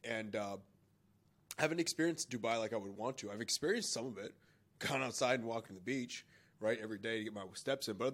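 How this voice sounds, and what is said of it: Congested, sick-sounding voice. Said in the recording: “you can tell from my voice, I'm a little congested. So I'm kind of been sick this whole time.”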